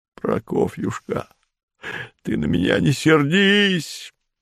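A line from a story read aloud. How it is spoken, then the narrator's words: Tearful moan. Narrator (Russian): простонал он сквозь слезы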